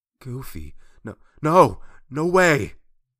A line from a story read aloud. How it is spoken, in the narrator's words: Sora exclaimed